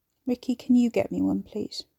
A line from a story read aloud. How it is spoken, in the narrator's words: He sighed